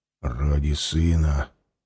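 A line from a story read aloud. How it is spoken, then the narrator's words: Whisper. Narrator (Russian): зашептал он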